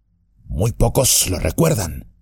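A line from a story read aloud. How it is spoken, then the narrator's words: Murmured. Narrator (Spanish): murmuró Tom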